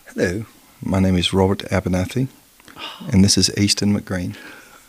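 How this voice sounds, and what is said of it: Put-on English accent, slightly Australian. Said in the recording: “in your best English accent ... I think maybe a touch Australian.”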